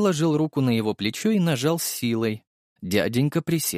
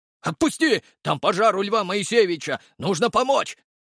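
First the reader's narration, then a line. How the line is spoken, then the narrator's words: Yelling, alarmed. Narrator (Russian): завопил прохожий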